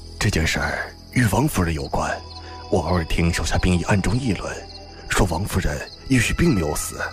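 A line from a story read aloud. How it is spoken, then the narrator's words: Hushed voice. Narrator (Chinese): 蒙江才压低声音道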